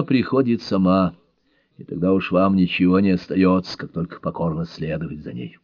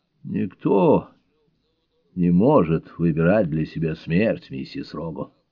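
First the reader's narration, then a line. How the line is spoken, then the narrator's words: Grim. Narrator (Russian): мрачно произнесла Бель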